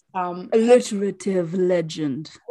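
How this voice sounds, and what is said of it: Silky, honeyed imitation of another's voice. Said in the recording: “that's my bad impression of my Angela ... she has the most silky and ... but like glorious honey voice ... we were trying to imitate it”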